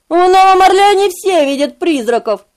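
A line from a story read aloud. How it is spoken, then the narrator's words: Short quiet laugh. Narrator (Russian): Он невольно рассмеялся, коротким, тихим смешком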